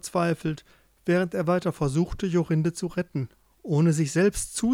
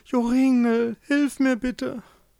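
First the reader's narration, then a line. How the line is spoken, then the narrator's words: Pleading. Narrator (German): Jorinde flehte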